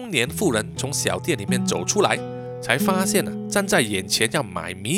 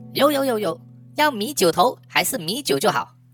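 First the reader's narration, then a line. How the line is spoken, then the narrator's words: Young men calling loudly. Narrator (Chinese): 两个年轻的原住民…在小杂货店的前面高声的问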